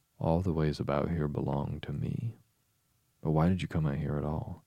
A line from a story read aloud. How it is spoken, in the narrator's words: she added in a kinder tone